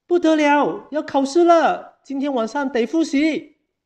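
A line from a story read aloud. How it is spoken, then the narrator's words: Alarmed shriek. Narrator (Chinese): 像踩到蟑螂般尖叫起来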